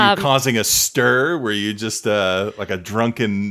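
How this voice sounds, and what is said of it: Usual voice. Nothing is said of it.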